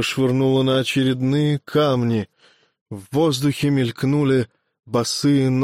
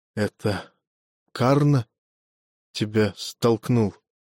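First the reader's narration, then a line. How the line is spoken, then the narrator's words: Quiet question. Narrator (Russian): Арджуна тихо спросил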